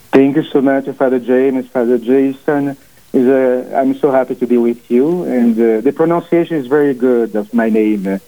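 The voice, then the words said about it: Strong Portuguese accent. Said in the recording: “I have a big accent also. My family is from Portugal, so I have a big, strong accent.”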